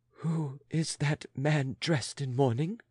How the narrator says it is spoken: Making an effort to speak, she gasped without addressing anyone especially

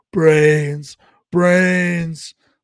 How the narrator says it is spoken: screaming

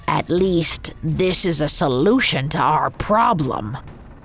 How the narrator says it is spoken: growled Coppelius

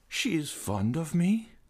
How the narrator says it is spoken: sighed the young man

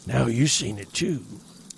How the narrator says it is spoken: wheezed

